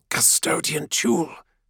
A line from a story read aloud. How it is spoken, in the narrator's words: hisses into the vox